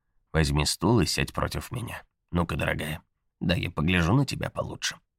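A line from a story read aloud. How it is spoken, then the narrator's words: Quiet command. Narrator (Russian): тихо велела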